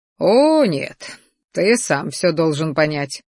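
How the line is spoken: Pleased snort. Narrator (Russian): хмыкнул ящер, довольно щурясь

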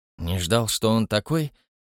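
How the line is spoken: Impulsive question. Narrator (Russian): не удержался от вопроса Хэмилтон

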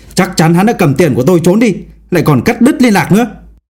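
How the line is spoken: Middle-aged man yelling. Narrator (Vietnamese): Một người đàn ông trung niên quát tháo

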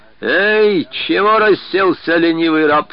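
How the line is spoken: Shouted through window. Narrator (Russian): крикнул игумен в свое окошечко из алтаря

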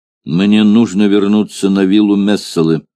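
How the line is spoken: Grim. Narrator (Russian): мрачно произнес Спартак

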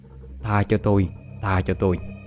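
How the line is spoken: Terrified mumbling. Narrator (Vietnamese): chú Chính mặt không còn một chút máu, miệng thì lẩm ba lẩm bẩm

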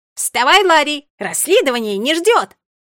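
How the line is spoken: Loud bark into ear. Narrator (Russian): гаркнула прямо в ухо

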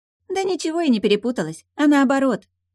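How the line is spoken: Cheerful reply. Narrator (Russian): бодро отозвалась Млавка

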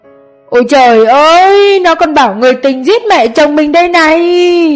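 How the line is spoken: Loud deliberate shrieking. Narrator (Vietnamese): mẹ chồng cô đang hét toáng lên như cố tình để cô nghe thấy

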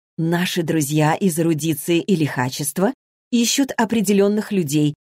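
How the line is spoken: Plain. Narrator (Russian): говорит Джоанна

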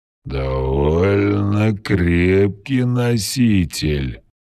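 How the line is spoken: Curious drawl. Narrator (Russian): с любопытством протянул скользящий

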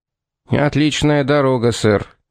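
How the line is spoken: Gloomy remark. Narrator (Russian): мрачно заметил Мёрдо

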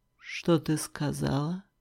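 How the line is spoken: Low, hoarse, menacing. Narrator (Russian): Низко, хрипло, угрожающе

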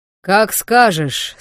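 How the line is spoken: Calm loud bark. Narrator (Russian): спокойно гаркнул Вархар

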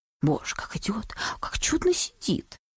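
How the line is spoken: Whispering crowd. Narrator (Russian): шептали в свите

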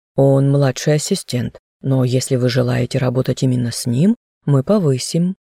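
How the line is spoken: Calm. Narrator (Russian): спокойно согласился управляющий

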